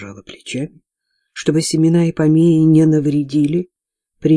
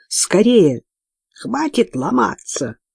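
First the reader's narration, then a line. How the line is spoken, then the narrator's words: Nasal croak. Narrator (Russian): гнусаво каркнула она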